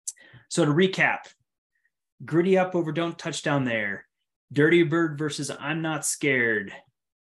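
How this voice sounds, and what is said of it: Worn-out, parched voice. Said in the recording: “My voice is parched, or my throat is parched. My voice is dead.”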